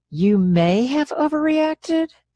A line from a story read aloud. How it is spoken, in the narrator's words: I laughed